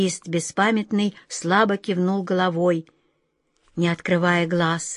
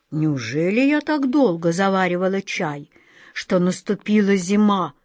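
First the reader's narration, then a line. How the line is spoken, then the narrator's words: Grumbling. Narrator (Russian): проворчала тетушка-черепаха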